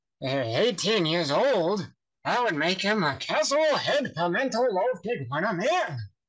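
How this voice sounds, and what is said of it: Imitates a cartoon character's voice. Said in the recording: “that's actually surprisingly close. Like, that's a really, really good impression.”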